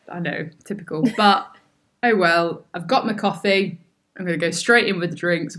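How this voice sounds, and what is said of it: Hoarse, croaky throat. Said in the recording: “I've got a frog in my throat and I can't get rid of it.”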